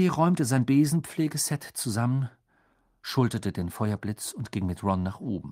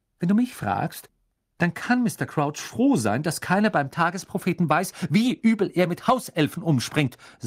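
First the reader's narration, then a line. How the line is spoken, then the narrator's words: Angry. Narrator (German): sagte Hermine zornig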